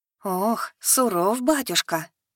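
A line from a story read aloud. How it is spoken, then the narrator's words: Breathed out. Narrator (Russian): выдохнула Янка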